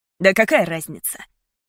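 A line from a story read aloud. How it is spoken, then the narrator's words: Irritated reply. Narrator (Russian): раздраженно ответил Мейсон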